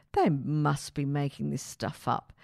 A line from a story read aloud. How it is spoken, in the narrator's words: muttered